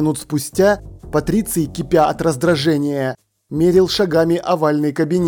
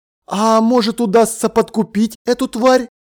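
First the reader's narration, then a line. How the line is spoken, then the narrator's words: Exclaiming. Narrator (Russian): воскликнул он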